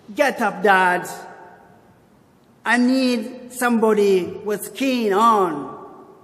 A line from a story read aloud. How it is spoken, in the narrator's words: the boy yelled again